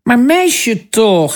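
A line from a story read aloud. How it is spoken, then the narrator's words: Father calling out. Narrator (Dutch): riep haar vader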